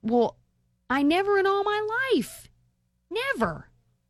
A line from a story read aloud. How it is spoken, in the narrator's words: he exclaimed